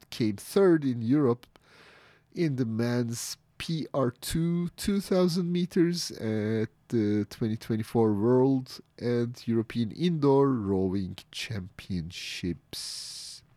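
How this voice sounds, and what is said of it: Unwell-sounding, allergy-affected voice. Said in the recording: “Sorry about my voice today. I'm suffering from allergies”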